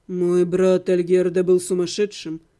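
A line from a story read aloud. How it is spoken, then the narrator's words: Calm reply. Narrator (Russian): спокойно ответил брат Левана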